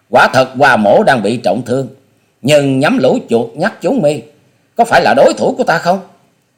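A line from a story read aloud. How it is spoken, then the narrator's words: Loud hearty laughter. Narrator (Vietnamese): Hoa Sĩ Kiệt cố dẫn khí đơn điện, buông ra một chuỗi cười to hào sảng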